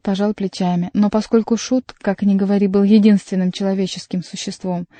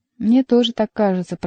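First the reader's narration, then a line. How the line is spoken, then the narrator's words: Mumbling. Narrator (Russian): промямлил герцог Анжуйский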